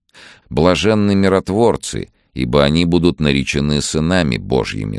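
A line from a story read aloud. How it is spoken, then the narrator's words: Plain. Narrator (Russian): сказал Иисус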